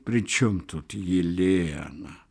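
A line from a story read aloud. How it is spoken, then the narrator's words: Reproachful whisper. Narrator (Russian): укоризненно шепнул голос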